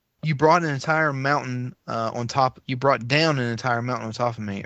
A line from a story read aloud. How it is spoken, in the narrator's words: Aeropanop said in a peculiar lisp caused by its overlong fangs